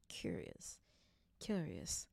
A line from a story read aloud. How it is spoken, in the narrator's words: still muttering